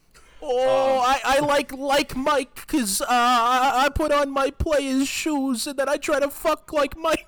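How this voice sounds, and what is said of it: Put-on New York accent. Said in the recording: “This is a racially insensitive accent, but only for guys that live in New York City.”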